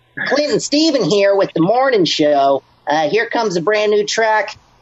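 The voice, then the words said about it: Cheesy morning radio DJ voice. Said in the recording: “radio voice ... as cheesy as possible ... Morning Zoo radio show ... that sounds stupid”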